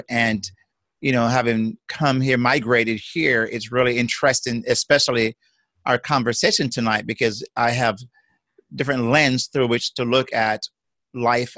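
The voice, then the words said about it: Jamaican accent. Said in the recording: “You've got a unique accent, which I love. ... I, am a transplant uh, from Jamaica”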